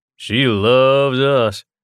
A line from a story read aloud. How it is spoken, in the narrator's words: drawled Buck